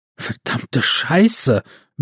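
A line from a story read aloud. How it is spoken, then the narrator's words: Breathless whisper. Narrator (German): wisperte Big L atemlos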